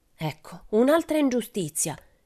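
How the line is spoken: Exclaiming. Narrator (Italian): esclamò Pippi

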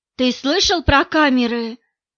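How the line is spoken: Two colleagues whispering. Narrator (Russian): перешептывались двое его коллег

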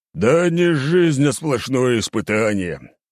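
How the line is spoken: Drunken grumbling. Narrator (Russian): ворчал пьяный

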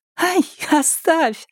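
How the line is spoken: Laughing protest. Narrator (Russian): смеясь, отбрыкивалась Маша

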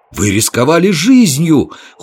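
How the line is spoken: Exclaimed in chorus. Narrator (Russian): хором воскликнули

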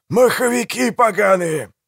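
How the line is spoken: Growling. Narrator (Russian): прорычал Пиви

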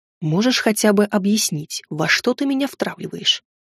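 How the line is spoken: Serious secretive whisper. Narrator (Russian): серьезно спросил шепотом, чтобы не слышали гребцы и охрана

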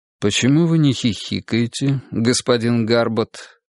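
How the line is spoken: Calm inquiry. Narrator (Russian): спокойно осведомился преподаватель

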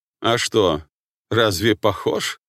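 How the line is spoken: Laughing. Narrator (Russian): рассмеялся

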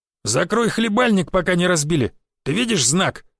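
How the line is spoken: Growling. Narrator (Russian): зарычал в его сторону Жига

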